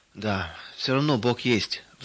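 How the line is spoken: Sighing. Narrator (Russian): вздохнул он

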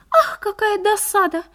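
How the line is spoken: Sighing. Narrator (Russian): вздохнула минутка

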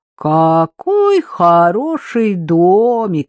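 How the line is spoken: Nasal singsong, young man. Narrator (Russian): нараспев прогундосил один из парней

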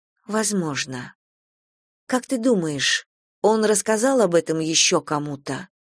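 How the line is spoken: Plain. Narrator (Russian): спросила я

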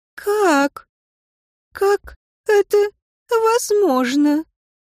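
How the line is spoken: Trembling voice. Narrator (Russian): Ланетта произнесла дрожащим голосом

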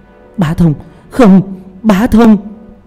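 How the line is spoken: Screaming. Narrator (Vietnamese): Thanh Nguyệt gào thét

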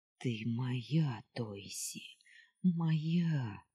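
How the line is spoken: Whispered. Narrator (Russian): шептал Челган

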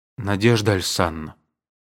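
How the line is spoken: Dejected. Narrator (Russian): сказал он уныло

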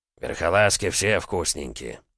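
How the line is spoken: Grumbled. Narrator (Russian): буркнул второй

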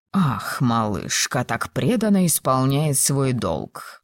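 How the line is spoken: Muttered. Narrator (Russian): пробормотал лорд Кембридж

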